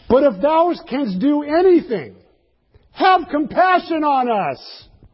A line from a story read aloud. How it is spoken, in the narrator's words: And he cried out